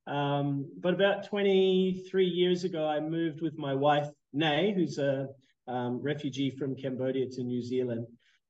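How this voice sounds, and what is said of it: New Zealand-influenced accent. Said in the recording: “I was born in Canada, but um, grew up in New Zealand. You can probably hear that that strange accent.”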